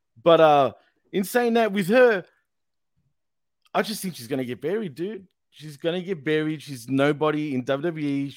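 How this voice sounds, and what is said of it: Australian accent. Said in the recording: “That is the Aussie thing. As I'm listening to you talk... I think the Aussie accent's like bland.”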